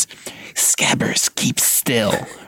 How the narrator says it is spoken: Ron hissed

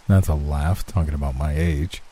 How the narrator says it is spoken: muttered the young man with a sneer

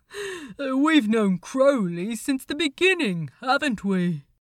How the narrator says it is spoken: Hester laughed too

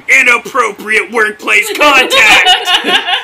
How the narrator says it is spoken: I scream

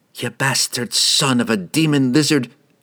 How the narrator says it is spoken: she spat

